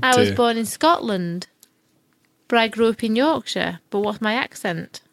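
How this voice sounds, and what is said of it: Yorkshire English accent. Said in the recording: “I would say Yorkshirean.”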